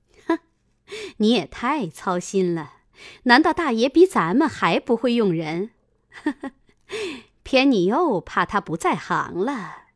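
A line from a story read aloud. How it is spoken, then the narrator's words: Sly sinister laugh. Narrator (Chinese): 凤姐阴笑道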